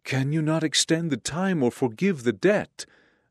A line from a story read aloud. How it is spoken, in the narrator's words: the debtor begged